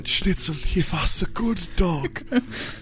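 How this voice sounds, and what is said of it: Old German accent. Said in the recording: “You read it in an old German accent.”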